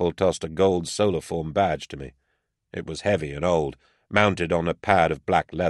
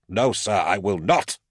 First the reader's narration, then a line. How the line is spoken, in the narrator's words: snapped Karpel